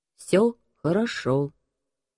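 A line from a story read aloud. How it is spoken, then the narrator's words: Flat toneless voice. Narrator (Russian): бесцветным тоном вымолвил Стив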